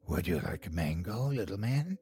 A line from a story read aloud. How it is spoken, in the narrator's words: In a raspy voice, she asked